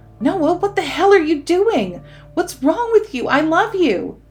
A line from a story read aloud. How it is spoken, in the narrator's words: she begged and pleaded with him